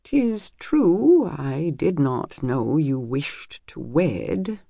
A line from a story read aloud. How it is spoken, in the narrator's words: admitted slowly